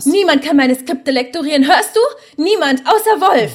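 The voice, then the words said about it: Shouting angrily. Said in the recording (German): “schrei doch nicht so”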